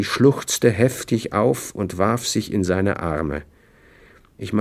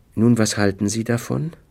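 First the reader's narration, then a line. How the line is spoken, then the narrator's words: Calm female question. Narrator (German): fragte sie ruhig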